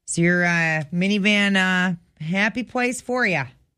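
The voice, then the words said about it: Put-on regional accent. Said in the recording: “Nice accent.”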